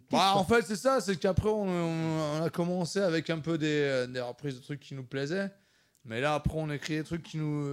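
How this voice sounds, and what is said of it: Regional French accent. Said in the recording (French): “qu'est-ce que c'est cet accent là? ... c'est vrai que ouais, on a chacun son accent. Moi je suis d'Épinal au départ”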